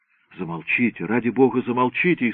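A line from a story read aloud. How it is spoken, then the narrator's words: Frightened pleading woman. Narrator (Russian): испуганно взмолилась дама в черном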